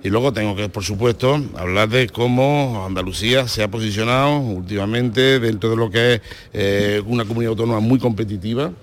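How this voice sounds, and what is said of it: Andalusian Spanish accent. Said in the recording (Spanish): “acento andaluz ... Yo lo hago en mi acento ... hablo como, como hablo”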